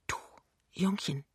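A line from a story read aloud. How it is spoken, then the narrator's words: Quiet after long pause. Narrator (German): Nach einer ganzen Weile sagt sie leise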